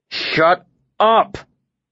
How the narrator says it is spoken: I snarled at the two of them

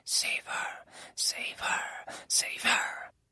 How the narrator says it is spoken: Those familiar voices whispered in my ear

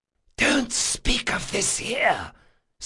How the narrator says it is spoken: Selendri hissed

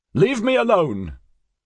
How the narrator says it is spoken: Vostad shouted

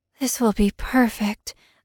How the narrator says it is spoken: I murmured

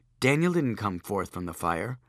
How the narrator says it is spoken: Joshua said calmly

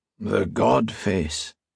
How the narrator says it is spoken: the old man asked, the lilt of his Scottish accent still present in his gravelly, tired voice

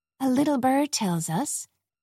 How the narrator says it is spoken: Carol said sweetly

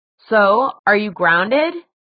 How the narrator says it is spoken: Simon asked a little too loudly

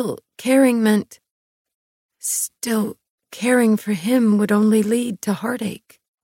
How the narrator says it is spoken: I whispered

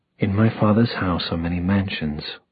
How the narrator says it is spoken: Jace whispered

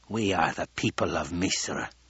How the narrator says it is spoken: the old woman rasped

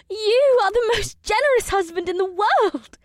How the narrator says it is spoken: Ibsith exclaimed as she giggled

